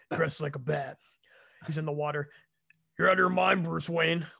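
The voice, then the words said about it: Imitates another person's voice. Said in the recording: “this is my Jason Momoa impression.”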